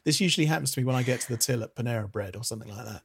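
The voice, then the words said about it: English accent. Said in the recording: “because they hear my voice, and what they think I want in that moment is for them to attempt an English accent”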